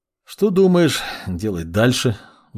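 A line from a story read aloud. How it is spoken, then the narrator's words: Sighing question. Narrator (Russian): вздохнув, спросил маг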